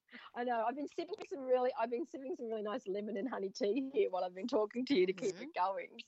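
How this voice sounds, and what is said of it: Husky, deep sick voice. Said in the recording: “I don't usually have this husky deep voice either ... the cough”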